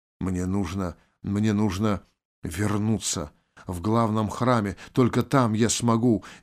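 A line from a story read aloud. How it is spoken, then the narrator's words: Incoherent mumbling. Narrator (Russian): бессвязно бормотал Анжей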